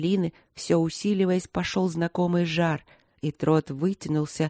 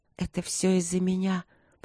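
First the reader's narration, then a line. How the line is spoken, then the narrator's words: Bitter whisper. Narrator (Russian): прошептала она горько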